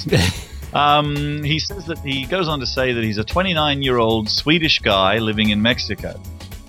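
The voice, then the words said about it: Mixed Canadian-Australian accent. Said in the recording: “my accent is a serious hybrid of a Canadian, Australian, and whatever else it is”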